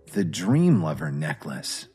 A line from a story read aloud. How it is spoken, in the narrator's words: Kevin whispered to himself